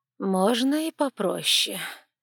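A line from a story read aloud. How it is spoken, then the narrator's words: Old woman sighing, explaining. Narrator (Russian): вздохнула старая интриганка и пояснила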